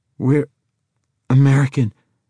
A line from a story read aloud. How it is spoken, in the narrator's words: Nick stammered